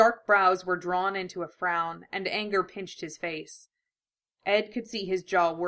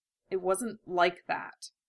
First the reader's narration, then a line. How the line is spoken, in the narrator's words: muttered